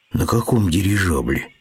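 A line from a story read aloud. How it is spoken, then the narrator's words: Dejected bear cub asking. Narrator (Russian): упавшим голосом спросил медвежонок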